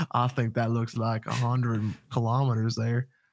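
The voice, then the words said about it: Put-on Texan accent. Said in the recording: “Whenever I'm speculating on speed limits, I always turn into a Texan ... Austrians all sound like Texans ... I'm doing some weird accent”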